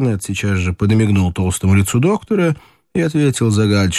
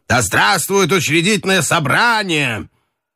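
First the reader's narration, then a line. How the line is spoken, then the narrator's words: Lively shout. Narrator (Russian): С непонятной живостью крикнул офицерам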